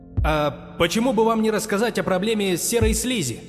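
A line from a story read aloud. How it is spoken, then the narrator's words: Man shouting from audience. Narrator (Russian): выкрикнул с третьего ряда мужчина в черной куртке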